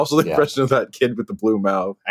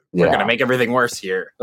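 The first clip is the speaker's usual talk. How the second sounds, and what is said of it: Imitates another person's voice. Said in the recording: “my Elon Musk impression.”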